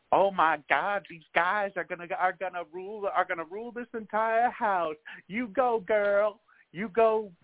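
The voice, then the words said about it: Exaggerated excited fan voice. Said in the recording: “my best impersonation of Big Brother Twitter”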